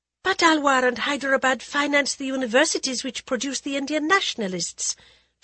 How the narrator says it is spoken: Jaya blurted before she could stop herself

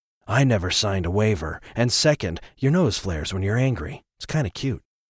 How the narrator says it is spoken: Atticus said seriously, but keeping his voice down

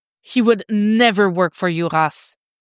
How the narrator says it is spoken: snarls

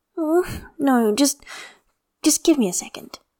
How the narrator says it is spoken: Jinyan says with a sigh

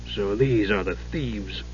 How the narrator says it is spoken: muttered into his beard

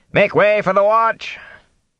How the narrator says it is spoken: shouting

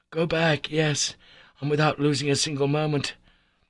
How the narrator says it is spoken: I vehemently cried

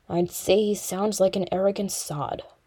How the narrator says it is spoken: Thorin muttered

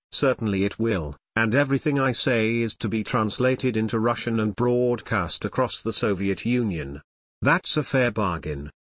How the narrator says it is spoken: Nixon calmly responded

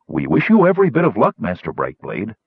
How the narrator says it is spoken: said Cutwood

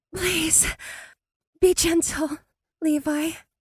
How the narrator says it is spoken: she whispered

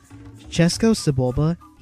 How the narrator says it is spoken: said

